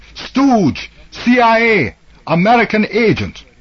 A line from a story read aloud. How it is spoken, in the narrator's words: the students rushed him and drove him away, shouting